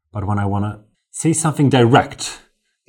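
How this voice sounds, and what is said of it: Put-on British accent. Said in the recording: “That was British. Where did that British accent come from?”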